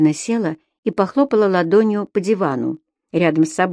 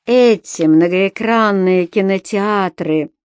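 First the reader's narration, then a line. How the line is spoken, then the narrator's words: Grumbling. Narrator (Russian): проворчал Пит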